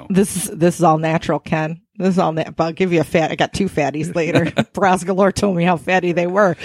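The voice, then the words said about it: Odd role-play character voice. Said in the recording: “What is up with a voice? ... What the fuck is up with your voice? ... the new role play character voice I developed”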